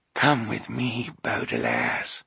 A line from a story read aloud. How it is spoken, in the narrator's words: the boy said in a very quiet voice